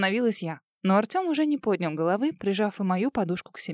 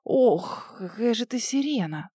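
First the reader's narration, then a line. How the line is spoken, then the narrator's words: Groaning. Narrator (Russian): застонал он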